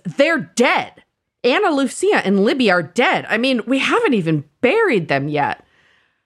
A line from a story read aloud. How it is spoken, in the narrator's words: It's getting increasingly more heated until Hurley screams